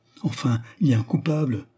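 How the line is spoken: Pitiful tone. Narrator (French): dit Bemer d'un ton lamentable

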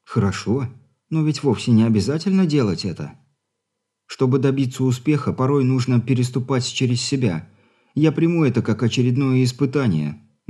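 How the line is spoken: Sad wry smirk. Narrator (Russian): грустно ухмыльнулась девушка

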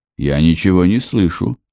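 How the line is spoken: Plain. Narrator (Russian): сказал Кевин

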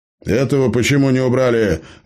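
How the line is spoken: Barked shout. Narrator (Russian): гаркнул голос

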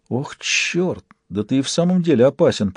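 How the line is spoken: Whispering. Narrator (Russian): прошептала Андреа

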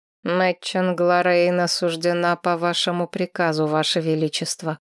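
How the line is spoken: Dry lifeless tone. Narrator (Russian): сухим безжизненным тоном произнес Гилмор

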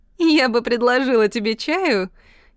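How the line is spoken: Giggling. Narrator (Russian): хихикает моя кузина Карлотта

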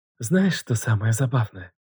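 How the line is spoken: Breathy exhale. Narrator (Russian): Выдохнула она, ускоряя темп

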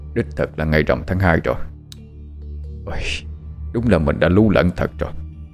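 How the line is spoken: Frowning mutter. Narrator (Vietnamese): nhíu mày một cái rồi lẩm bẩm

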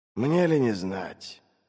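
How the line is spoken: Sigh. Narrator (Russian): вздохнул Глокта

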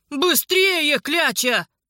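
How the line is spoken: Shout. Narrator (Russian): прокричал Александр

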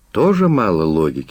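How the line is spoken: Sighing. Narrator (Russian): вздохнул следователь

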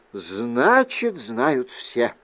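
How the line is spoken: Sighing. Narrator (Russian): вздохнула тетушка

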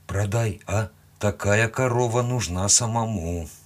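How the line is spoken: Calm reply. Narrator (Russian): спокойно ответил

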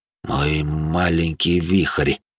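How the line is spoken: Warm mumble. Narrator (Russian): пробормотал Винсент Кассиди с необычной теплотой

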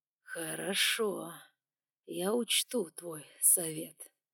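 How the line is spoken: Slow speech. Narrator (Russian): медленно произнес дракон

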